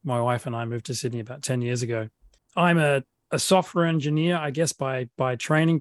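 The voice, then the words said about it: Australian accent. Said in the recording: “as you can tell by the accent, I'm an Australian.”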